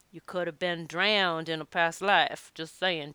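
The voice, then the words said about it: Put-on accent. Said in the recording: “Don't know why I'm doing this accent all of a sudden.”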